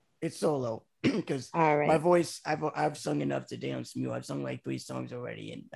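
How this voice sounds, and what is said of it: Raspy, strained voice. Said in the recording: “my voice is kind of raspy ... from singing all day today ... Yes, I hear it.”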